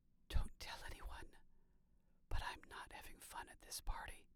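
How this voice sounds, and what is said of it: Whispering. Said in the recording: “Here is a whisper.”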